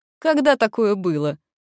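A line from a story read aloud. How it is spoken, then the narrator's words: Dwarf woman shouting. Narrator (Russian): крикнула женщина из гномов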